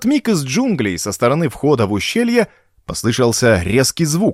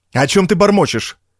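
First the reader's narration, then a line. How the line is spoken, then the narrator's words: Barking. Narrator (Russian): рявкнул Вентард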